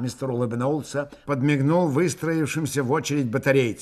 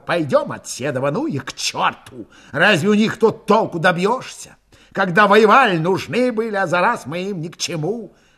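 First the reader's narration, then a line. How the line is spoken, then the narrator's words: Angry speech. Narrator (Russian): злобно сказал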